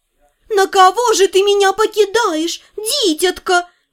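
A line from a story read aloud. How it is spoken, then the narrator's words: Shrill mimicking voice. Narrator (Russian): Не успокаивалась Дейла, явно кому-то подражая, уж больно визгливо это вышло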